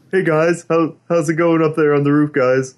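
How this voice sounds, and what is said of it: Imitates another person's voice. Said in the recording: “That is my Russell Crowe impression. ... That is a worse Russell Crowe impression than...”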